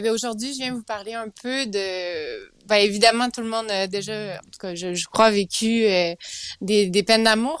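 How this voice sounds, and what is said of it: Sing-song Quebec French accent. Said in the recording (French): “l'accent du Québec qui chante”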